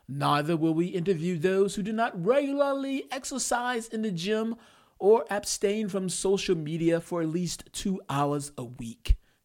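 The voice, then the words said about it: Put-on accent. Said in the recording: “I did that in an accent”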